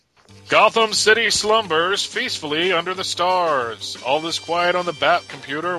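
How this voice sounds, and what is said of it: Imitates a 60s cartoon narrator. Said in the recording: “do an impersonation of Ted Knight from the old DC comic book, cartoons from the 60s.”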